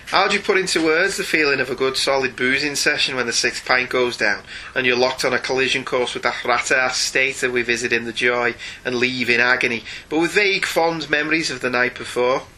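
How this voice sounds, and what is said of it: Put-on Scouse accent. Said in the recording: “I have to do my Scouse accent again.”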